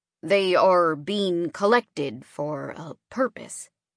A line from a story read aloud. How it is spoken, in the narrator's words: Alex said, his voice full of contempt